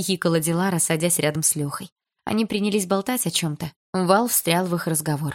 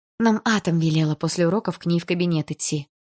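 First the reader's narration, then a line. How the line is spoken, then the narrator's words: Sighing. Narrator (Russian): вздохнула я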